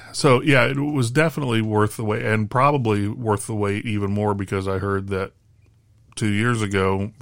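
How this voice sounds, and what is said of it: Slightly raspy voice. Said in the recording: “my voice is still a little raspy, but getting better all the time”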